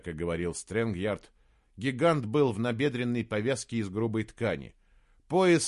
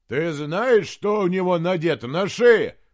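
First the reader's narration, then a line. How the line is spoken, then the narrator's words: Shouted. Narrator (Russian): прокричал толстяк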